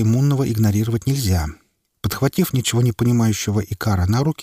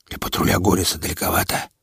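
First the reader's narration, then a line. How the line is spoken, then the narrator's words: Breathless whisper. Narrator (Russian): отдышавшись, прошептал клокстопер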